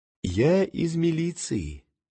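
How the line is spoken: Quiet. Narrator (Russian): негромко сказал

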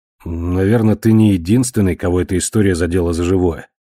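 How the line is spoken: Grim. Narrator (Russian): мрачно кивнул он

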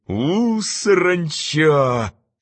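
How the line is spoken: Hissing. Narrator (Russian): прошипела Маргарита

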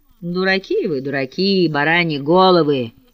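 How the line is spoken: Sudden angry bear-like growl. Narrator (Russian): произнес вдруг чей-то голос, похожий на сердитое медвежье ворчание

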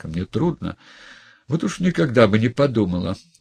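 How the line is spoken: Exclaiming. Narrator (Russian): воскликнула девушка

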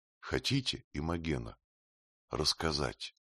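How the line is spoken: Soft, gentle question. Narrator (Russian): Спросил ее тихо и ласково

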